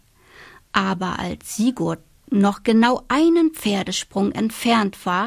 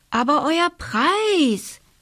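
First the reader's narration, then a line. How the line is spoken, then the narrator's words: Calling out. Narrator (German): rief der König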